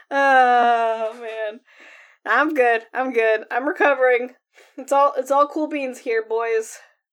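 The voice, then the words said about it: Sick, rough voice. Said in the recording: “I am sick, so my voice is gonna sound a little”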